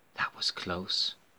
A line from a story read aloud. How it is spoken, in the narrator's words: whispers Natalia nervously